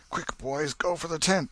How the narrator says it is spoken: exclaimed Tom

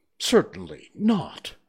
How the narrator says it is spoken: said Alice indignantly

